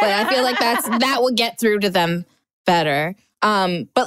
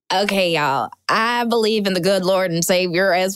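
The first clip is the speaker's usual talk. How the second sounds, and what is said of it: Put-on Southern accent. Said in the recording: “why did I do a Southern accent?”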